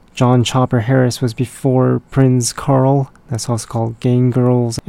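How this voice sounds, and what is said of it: Hoarse, worn-out voice. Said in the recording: “my voice is just shot and I wasn't even screaming. So it's probably the rum dried up my throat”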